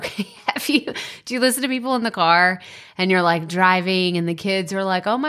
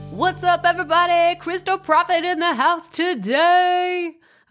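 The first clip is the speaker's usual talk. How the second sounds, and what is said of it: Mock radio DJ voice. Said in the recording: “I was living out this weird radio DJ fantasy ... I don't think that that's my radio DJ voice.”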